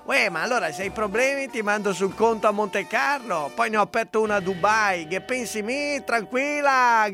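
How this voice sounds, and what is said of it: Put-on film-character regional accent. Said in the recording (Italian): “Ve lo ricordate il Kumenda dei film di Vanzina ... con giusto accento”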